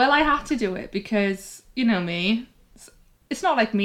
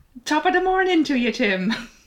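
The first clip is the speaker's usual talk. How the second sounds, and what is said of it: Put-on Irish accent greeting. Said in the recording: “Wondered whether to do a sort of Irishy hello ... with absolutely no Irish accents ... Oh, she did it.”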